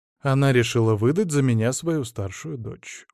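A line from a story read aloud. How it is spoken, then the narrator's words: Dejected. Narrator (Russian): уныло сказал Моисей Соломонович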